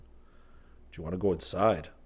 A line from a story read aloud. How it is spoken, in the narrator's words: Geronimo murmured